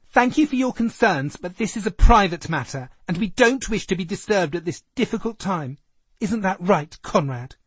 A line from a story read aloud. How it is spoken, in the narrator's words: George announced in his campest voice